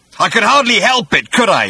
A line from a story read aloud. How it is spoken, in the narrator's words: he bellowed